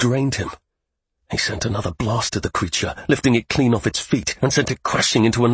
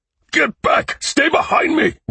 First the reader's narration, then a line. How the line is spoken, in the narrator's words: Ren shouted